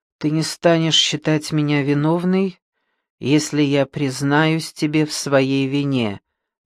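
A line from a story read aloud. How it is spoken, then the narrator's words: Muttered. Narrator (Russian): пробормотала Дебора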